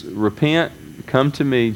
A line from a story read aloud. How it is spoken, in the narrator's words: Jesus said